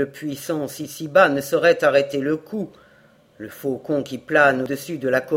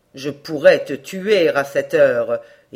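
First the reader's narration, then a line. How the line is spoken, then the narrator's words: Exclaimed. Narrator (French): s'écria-t-il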